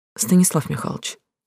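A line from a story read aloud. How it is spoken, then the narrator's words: Quiet, through clenched teeth. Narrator (Russian): тихо процедила Глаша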